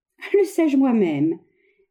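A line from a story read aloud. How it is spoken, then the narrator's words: Laughing harder. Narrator (French): reprit Lorenza en riant de plus belle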